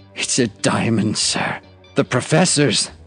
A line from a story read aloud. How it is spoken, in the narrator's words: he croaked